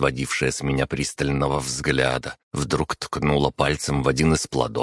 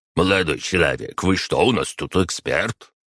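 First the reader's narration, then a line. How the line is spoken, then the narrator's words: Displeased grumble. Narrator (Russian): Продавец, услышав мои слова, недовольно пробурчал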